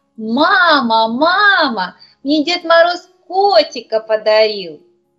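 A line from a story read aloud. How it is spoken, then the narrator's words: Joyful child's shout. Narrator (Russian): Анечка радостно закричала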